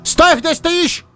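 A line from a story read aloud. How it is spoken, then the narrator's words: Fox barking. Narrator (Russian): рявкнул лис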